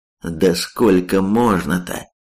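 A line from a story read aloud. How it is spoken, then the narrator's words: Cursing through teeth. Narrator (Russian): Выругался сквозь зубы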